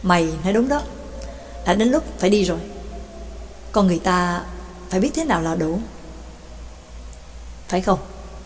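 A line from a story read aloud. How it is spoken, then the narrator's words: Soft throaty murmur. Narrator (Vietnamese): cổ họng phát ra những tiếng khe khẽ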